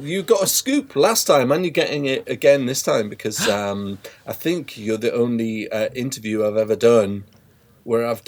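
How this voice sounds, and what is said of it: Natural English accent. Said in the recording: “I'll drop the American voice now ... my normal... English voice without the dodgy American accent”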